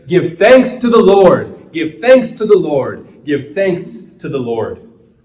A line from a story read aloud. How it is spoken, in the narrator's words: all cried together